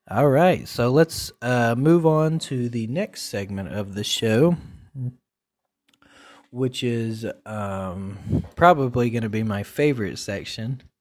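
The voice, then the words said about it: Scratchy, hoarse voice. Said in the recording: “my throat is all like scratchy ... my voice is so scratchy”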